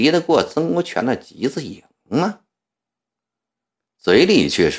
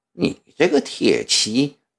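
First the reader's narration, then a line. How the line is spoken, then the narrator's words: Cold inner sneer. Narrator (Chinese): 慈禧在心里冷笑了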